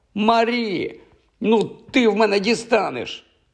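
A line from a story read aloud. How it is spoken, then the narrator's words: Boy shouting. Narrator (Ukrainian): Другий хлопчик закричав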